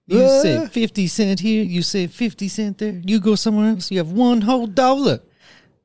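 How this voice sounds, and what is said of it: Put-on Chinese accent. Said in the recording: “That's where I got the accent from... It's Russell Peters... the Chinese actually has Fs”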